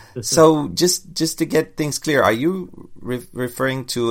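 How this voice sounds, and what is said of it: Usual voice. Nothing is said of it.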